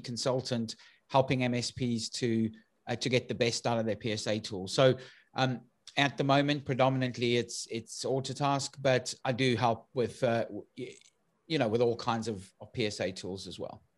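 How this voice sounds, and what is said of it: South African accent. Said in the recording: “for those who've picked up my accent, I'm originally from South Africa”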